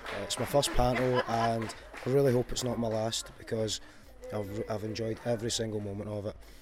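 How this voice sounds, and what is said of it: Hoarse, nearly lost voice. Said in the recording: “you can tell that, but I've lost my voice.”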